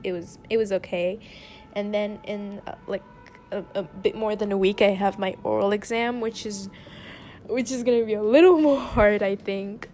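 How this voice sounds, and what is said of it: French accent in English. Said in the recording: “If my accent ... I'm French, okay? English isn't my first language. French is my first language.”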